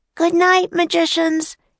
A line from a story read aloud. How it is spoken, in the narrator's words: Annie shouted